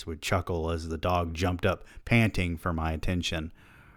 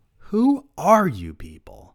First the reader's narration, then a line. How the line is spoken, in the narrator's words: my voice grew louder as I asked